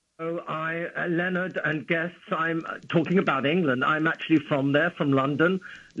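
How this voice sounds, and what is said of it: English London accent. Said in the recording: “I wouldn't have known from your accent ... I'm happy to still have my accent”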